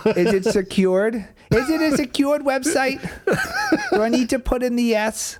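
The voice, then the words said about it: Old lady voice. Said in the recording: “You have to do your old lady voice though. ... It's automatic, Grandma.”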